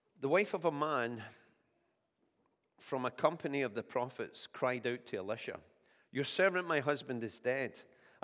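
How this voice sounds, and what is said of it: Slightly croaky voice from a cold. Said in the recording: “I'm still overcoming this cold, so my voice is a wee bit kind of croaky just now”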